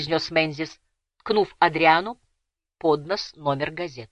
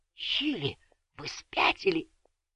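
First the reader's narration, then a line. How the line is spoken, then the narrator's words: Hissed. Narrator (Russian): прошипел Кордер, теолог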